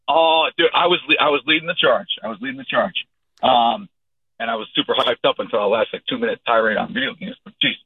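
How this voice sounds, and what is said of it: Hoarse voice. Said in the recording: “Sorry for my voice right now. ... A lot of screaming at Jose Altuve”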